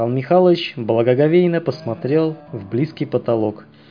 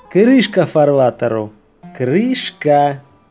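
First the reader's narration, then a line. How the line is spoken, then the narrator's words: Solemn announcement. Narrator (Russian): торжественно известил он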